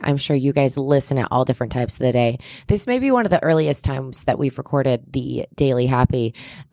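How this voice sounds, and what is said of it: Hoarse, strained morning voice. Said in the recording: “I do have morning voice ... I'm losing my voice”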